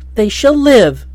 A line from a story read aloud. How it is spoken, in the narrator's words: cried the other